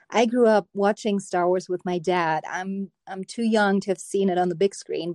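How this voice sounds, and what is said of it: German accent. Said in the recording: “the accent that you hear is German.”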